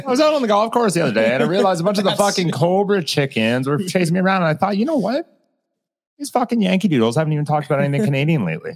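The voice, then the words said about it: Put-on Canadian accent, not convincing. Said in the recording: “Oh, that's not a Canadian accent.”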